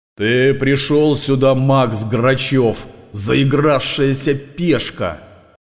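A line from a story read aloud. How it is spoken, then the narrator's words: Roaring. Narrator (Russian): проревел Эрмит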